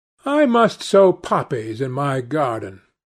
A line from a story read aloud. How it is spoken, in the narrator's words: sighed Dorian